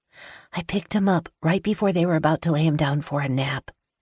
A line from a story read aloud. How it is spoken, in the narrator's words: I whisper